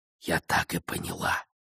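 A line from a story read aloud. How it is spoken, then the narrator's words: Close whisper. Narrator (Russian): прошептала она, прижимаясь к нему, словно чтобы согреться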